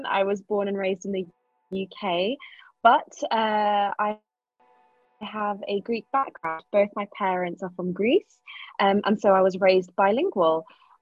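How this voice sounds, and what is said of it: English accent. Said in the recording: “As you can hear, I have an English accent.”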